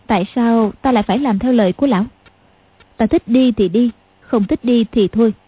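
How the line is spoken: Cold. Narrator (Vietnamese): Tiểu Long Nữ lạnh lùng nói

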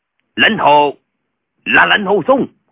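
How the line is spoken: Terrified shout. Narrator (Vietnamese): vô cùng kinh hãi quát

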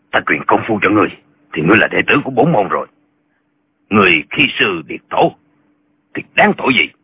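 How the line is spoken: Angry threatening shout. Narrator (Vietnamese): Khí giận trong lòng Lệnh Hồ Xuân chưa dời, chàng muốn hăm dọa lão, chàng liền quát lên

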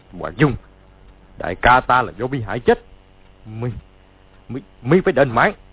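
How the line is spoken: Shouted. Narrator (Vietnamese): quát lên

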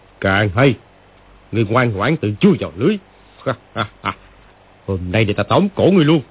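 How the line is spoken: Sneering, gleeful. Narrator (Vietnamese): lão chuyển giận thành vui, cười khẩy mà nói

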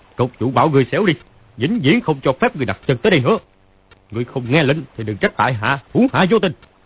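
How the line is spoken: Loud shout. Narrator (Vietnamese): Phàn Nhất Ông quát to

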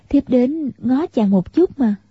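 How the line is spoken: Smiling. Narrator (Vietnamese): Tiểu Long Nữ mỉm cười, nói

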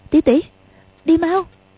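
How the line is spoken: Trembling, frightened. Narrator (Vietnamese): Quách Tương sợ Ni Ma Tinh có quỷ kế gì, run run nói

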